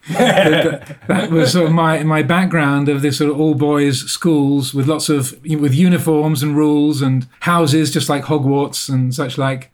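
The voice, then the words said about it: Posh English private-school accent. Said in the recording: “I went through the English private education system, as you can probably tell by my accent.”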